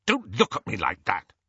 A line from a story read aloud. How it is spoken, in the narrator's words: he snapped at Hermione